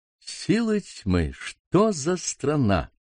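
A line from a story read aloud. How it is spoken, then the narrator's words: Mutter. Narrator (Russian): пробормотал отец Виктор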